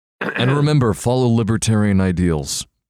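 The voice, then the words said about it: Ron Swanson impression. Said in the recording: “That's a pretty good impression. ... Ron Swanson's character”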